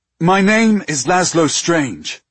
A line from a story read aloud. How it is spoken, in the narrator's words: he called out